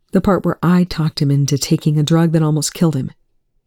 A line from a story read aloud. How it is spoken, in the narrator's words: Eli said flatly